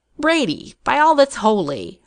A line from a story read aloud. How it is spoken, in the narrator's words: Hartnell exclaimed